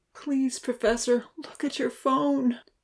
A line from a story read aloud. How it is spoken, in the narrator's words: In his mind, he pleaded silently